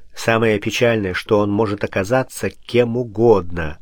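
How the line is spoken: Plain. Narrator (Russian): ответил Пушкин

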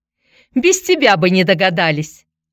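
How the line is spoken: Snapping retort. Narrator (Russian): огрызнулась Нечаева

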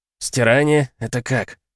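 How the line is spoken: Startled, strange-sounding question. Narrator (Russian): спросил Артём, но тут же умолк, ошеломлённый собственным голосом

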